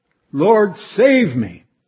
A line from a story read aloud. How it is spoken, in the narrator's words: so loudly he called